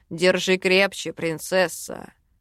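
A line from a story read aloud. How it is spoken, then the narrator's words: Deep bass voice. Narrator (Russian): Пробасил он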